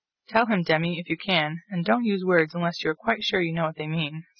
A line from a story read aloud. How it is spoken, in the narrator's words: said Mr